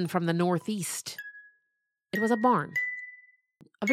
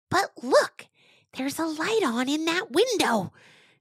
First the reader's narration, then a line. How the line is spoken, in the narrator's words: Mangoat hissed